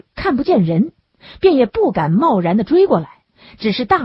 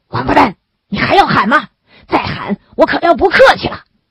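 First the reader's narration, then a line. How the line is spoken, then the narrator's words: Menacing roar. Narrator (Chinese): 于兆远加重了威胁的成分，吼道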